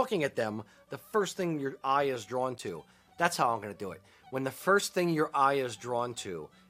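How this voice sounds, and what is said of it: Usual voice. Nothing is said of it.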